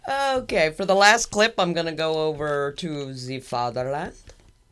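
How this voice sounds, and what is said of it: Attempted German, sounds Irish-Scottish. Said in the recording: “I didn't say that with a German. That was more like an Irish accent, wasn't it? Or Scottish. ... That wasn't even close.”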